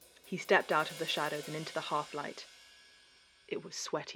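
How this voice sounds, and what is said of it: Usual voice. Nothing is said of it.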